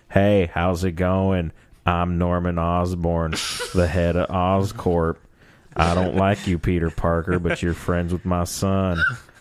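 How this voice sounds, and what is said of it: Imitates another person's voice. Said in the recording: “Matthew McConaughey impressions ... my impression”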